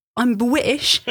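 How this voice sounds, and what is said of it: Exaggerated put-on British accent. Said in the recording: “thinks that she has got the most amazing British accent. it goes a bit like this”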